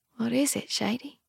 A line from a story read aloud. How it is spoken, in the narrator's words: She whispers